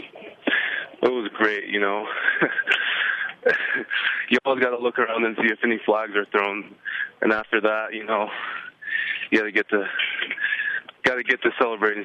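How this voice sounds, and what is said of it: Out of breath, panting. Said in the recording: “I'm out of breath. I'm going up some stairs right now ... it sounds like, are you lifting weights right now?”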